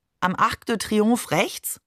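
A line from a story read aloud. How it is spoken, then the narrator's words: Plain. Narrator (German): fragte sie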